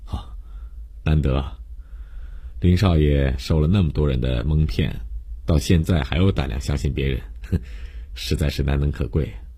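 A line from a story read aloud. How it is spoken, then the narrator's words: Ambiguous teasing sigh. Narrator (Chinese): 江帆不知认真还是调侃，感叹了一句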